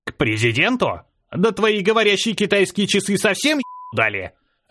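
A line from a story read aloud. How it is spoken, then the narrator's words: Gruff bark. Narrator (Russian): рявкнул дед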